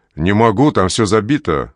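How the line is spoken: Plain. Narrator (Russian): говорит дежурный

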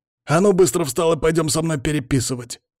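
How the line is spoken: Barked. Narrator (Russian): гаркнул на него Палыч

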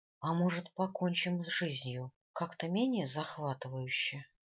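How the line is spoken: Gloomy question. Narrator (Russian): мрачно спросила

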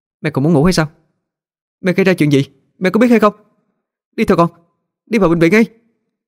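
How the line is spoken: Blunt shout. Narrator (Vietnamese): tôi dám thẳng thừng quát vào mặt mẹ

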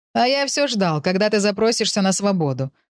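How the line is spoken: Brief laugh. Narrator (Russian): коротко рассмеялся тот

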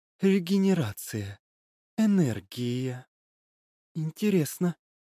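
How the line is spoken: Muttered. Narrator (Russian): пробормотала Лилит

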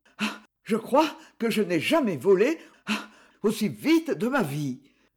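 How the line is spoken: Heavy panting. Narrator (French): me dit Gustave, haletant comme une vieille locomotive

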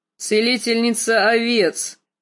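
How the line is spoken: Snort. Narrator (Russian): фыркнул Квота

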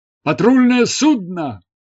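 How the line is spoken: Shout into ear. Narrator (Russian): крикнул Горхаджус мне на ухо

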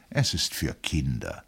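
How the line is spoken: Gentle reply. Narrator (German): antwortete sanft seine Frau

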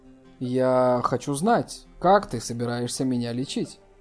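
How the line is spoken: Calm voice. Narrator (Russian): Она сказала спокойным голосом

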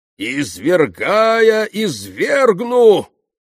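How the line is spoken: Sudden wailing shout. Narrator (Russian): отец Ферапонт вдруг завопил

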